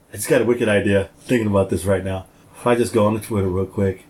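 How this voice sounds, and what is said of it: Usual voice. Nothing is said of it.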